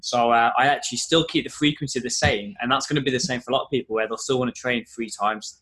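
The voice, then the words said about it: Wolverhampton English accent. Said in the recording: “I don't know if you can tell from my accent, but I'm from Wolverhampton”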